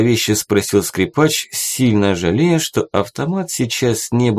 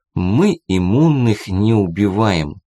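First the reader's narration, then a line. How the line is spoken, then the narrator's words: Slow speech. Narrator (Russian): медленно проговорил Максим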